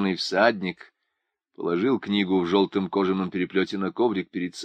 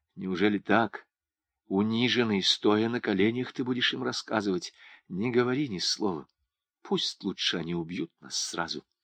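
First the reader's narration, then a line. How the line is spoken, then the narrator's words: Whisper. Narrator (Russian): Туган прошептал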